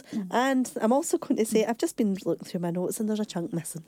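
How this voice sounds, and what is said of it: Croaky voice with a cold. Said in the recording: “excuse my voice because it's a bit croaky and I've got a wee bit of the cold”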